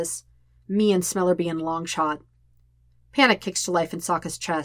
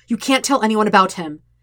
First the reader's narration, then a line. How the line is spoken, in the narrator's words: he says sharply